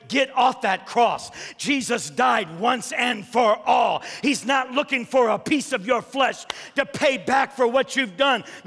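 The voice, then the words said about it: Yelling preacher. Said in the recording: “I'm yelling, aren't I? I'm yelling. ... you're yelling.”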